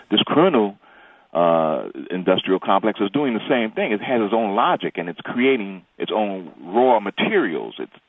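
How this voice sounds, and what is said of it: New York accent. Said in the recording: “I thought I detected a New York accent. ... Yes, right. I guess it never leaves”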